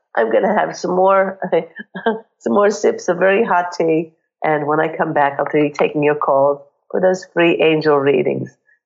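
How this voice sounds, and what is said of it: Croaky, hoarse voice. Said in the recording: “my croaky voice and as I have a cold”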